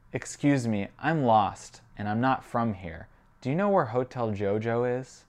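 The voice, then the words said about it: American Midwest accent. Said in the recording (French): “mon accent du Midwest des États-Unis”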